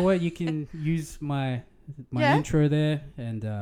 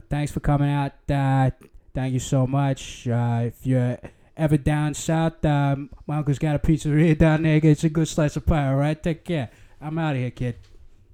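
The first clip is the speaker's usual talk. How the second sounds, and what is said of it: Put-on Boston accent. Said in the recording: “Can you give us a farewell in Boston accent?”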